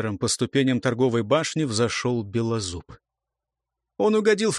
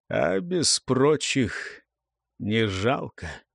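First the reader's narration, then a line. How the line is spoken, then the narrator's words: Quiet. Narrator (Russian): он негромко сказал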